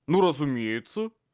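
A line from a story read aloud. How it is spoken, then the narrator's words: Offended. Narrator (Russian): обиженно заявил Боб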